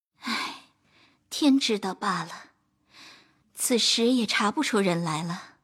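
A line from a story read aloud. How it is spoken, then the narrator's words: Quiet sigh. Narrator (Chinese): 袭人阴叹道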